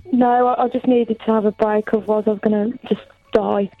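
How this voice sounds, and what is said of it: Black Country English accent. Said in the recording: “Got a good Birmingham accent going on there as well ... I'm from the back country, actually”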